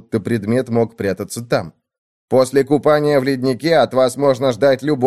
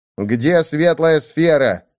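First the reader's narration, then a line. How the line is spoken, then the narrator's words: Menacing voice. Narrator (Russian): страшным голосом спросил Нави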